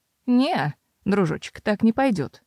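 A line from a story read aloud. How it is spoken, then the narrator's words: Dry reply. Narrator (Russian): сухо ответствовала Мэйр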